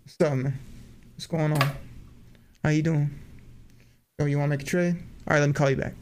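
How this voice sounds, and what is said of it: Imitates another person's voice. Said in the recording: “my impression”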